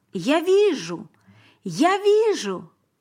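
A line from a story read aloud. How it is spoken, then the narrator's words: Shouting. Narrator (Russian): Теперь он кричал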